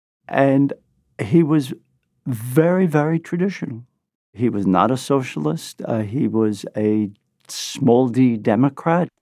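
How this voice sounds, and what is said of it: Brooklyn accent. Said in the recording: “This is my Brooklyn accent.”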